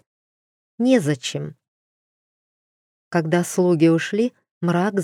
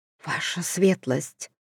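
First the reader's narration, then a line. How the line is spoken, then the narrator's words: Whisper. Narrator (Russian): шепотом сказала она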